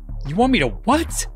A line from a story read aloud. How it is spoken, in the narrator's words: The Sphinx laughed